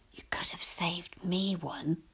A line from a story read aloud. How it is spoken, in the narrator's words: my brother whispers through the darkness